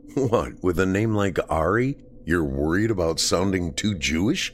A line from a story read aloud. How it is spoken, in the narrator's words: Danny laughed